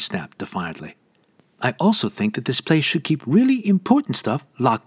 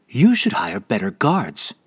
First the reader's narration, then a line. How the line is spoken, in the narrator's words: Vala snapped, still defiant